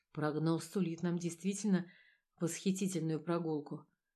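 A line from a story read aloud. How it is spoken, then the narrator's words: Muttered. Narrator (Russian): пробормотал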